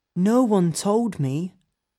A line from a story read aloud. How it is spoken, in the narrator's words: Colin looked at Mary sadly and said